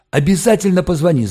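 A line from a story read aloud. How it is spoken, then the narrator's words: Yelling. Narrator (Russian): заорал Валька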